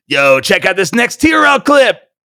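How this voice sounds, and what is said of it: Hyped-up MTV VJ style voice. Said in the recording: “you sound like an MTV VJ”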